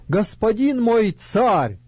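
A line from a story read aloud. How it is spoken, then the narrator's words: Shouting after someone. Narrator (Russian): закричал вслед, говоря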